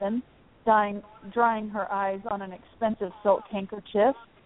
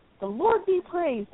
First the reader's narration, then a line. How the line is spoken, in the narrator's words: exclaimed the father